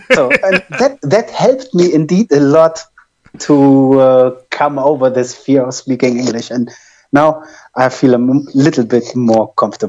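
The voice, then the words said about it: German accent in English. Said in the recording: “my German accent, and it's not as good as it should be”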